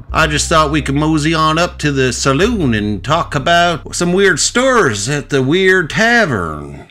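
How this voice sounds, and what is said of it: Put-on Western cowboy accent. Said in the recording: “if you were auditioning for a Western movie and you did that voice ... your accent”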